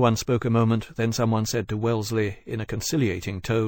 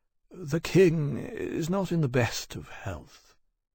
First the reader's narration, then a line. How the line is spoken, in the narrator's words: Percival paused and heavily, quietly said